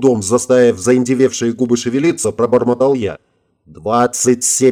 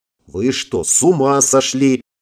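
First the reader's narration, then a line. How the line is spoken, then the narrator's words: Growling, breaking into curses. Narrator (Russian): Периодически срываясь на мат, зарычала она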